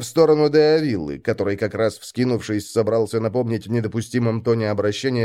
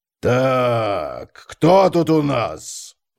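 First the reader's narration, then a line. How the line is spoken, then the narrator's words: Mocking drawling baby-talk. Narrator (Russian): протянул он и издевательски засюсюкал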